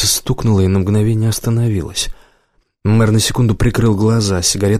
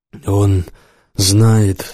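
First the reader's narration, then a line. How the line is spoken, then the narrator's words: Stammering. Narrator (Russian): заговорил чечен, запинаясь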